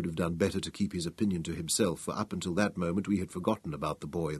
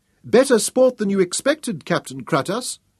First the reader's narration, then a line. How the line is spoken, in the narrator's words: Prince Memnon yelled back at him